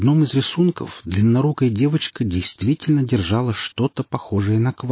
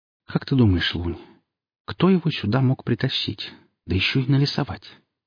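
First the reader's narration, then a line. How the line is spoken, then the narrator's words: Quiet question. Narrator (Russian): негромко спросила Хип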